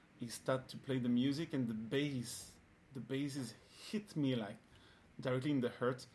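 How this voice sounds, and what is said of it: French-sounding accent in English. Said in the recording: “sorry for my accent ... Inspector Clouseau”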